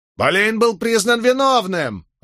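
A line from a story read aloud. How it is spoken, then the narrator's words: Shrill female voice. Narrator (Russian): раздался визгливый женский голос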